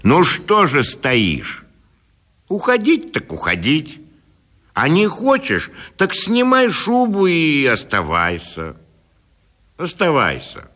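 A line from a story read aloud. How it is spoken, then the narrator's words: Stern, annoyed shout. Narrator (Russian): досадуя на свою бесхарактерность, он крикнул ей сурово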